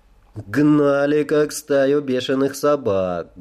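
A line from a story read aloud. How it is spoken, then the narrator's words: Muffled dull answer. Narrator (Russian): глухо ответила Аноя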